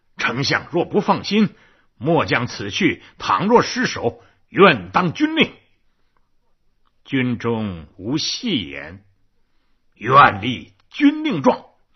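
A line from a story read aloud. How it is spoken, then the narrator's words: Shouting. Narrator (Chinese): 马谡嚷道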